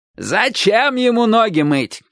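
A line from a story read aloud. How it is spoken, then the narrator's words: Old man shouting. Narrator (Russian): крикнул дедушка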